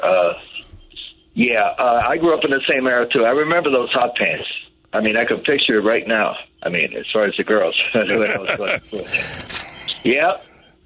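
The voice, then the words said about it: Congested voice from a cold. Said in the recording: “Apologize for my voice. I got a cold here.”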